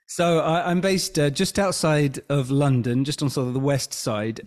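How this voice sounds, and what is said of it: A noticeable, pleasant accent. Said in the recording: “you've got a beautiful accent. I love the accent.”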